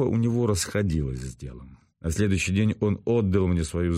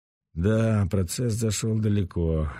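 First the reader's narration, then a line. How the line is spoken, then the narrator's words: Sighing. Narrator (Russian): вздохнул Ренат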